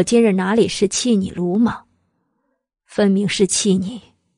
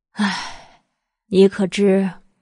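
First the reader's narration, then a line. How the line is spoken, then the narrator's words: Helpless sigh. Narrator (Chinese): 白了一华方才无可奈何的一叹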